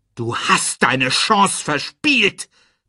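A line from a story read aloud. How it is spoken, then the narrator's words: Roared. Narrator (German): brüllte er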